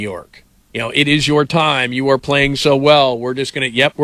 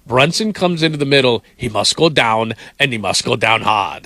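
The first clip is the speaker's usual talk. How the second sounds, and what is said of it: Poor impression of Drago. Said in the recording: “that was a terrible impression. ... like Drago”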